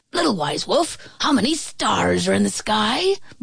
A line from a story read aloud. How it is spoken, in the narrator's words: barked the badger